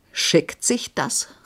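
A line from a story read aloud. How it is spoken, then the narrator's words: Shouting in flaring fury. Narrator (German): rief Horvath, dessen Grimm nur des zündenden Funkens geharrt hatte, um aufzuflammen wie eine Pulvertonne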